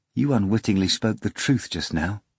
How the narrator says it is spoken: she said

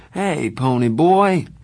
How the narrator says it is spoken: he said sleepily

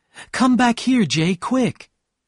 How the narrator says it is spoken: Daisy suddenly cried out

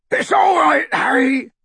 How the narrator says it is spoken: bellowed Hagrid, now thrown flat onto his back by the surge of speed

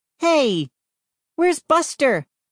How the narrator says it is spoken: called out

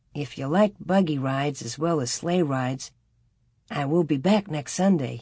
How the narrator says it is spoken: he said

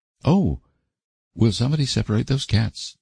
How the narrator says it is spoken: pleaded Stella, shudderingly

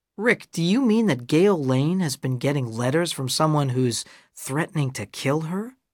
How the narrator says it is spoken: I asked

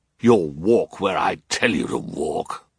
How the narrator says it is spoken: Olaf growled

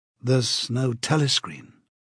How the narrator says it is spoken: he could not help murmuring

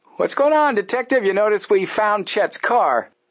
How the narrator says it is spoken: Joe called out to him

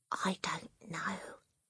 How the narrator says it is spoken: Matilda whispered back

